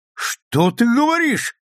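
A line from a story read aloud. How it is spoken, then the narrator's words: Confident young man's exclamation. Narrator (Russian): воскликнул Скотт Николсон, весьма решительный и самоуверенный молодой человек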